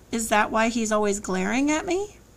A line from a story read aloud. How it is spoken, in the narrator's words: She chuckled